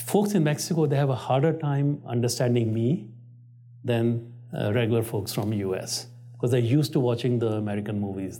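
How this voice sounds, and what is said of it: Thick Indian accent. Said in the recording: “I still have a thick Indian accent. Trust me, I've been trying for 37 years.”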